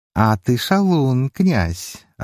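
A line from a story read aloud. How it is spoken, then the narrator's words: Goddess laughing playfully. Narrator (Russian): рассмеялась богиня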